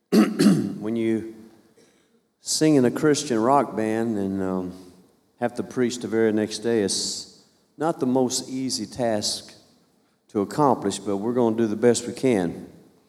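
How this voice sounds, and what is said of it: Slightly tired voice. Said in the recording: “If my voice sounds a little tired, it's because it is.”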